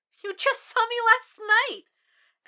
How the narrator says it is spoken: Abigail squeaked it out, letting out a little shriek

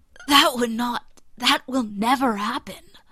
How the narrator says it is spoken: says hoarsely

